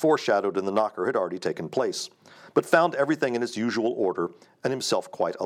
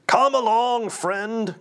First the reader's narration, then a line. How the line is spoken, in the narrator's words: cried Scrooge